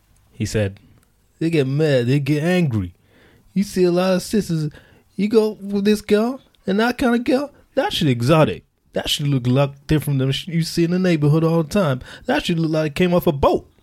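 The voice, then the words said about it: Imitates another person's voice. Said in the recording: “Can I do my 50 accent? ... that impression”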